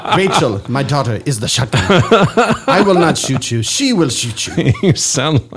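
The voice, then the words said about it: Mr. Miyagi style impression. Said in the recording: “You sound like Karate Kid. ... I am Mr. Miyagi. ... You've got one accent. You've got one impression. It fits over all things.”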